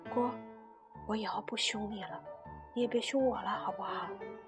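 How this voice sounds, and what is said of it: Very quiet, soft voice. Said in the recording (Chinese): “小小声说”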